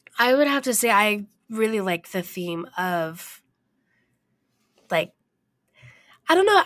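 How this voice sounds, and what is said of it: Strained, failing voice. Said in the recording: “my voice is kind of going out”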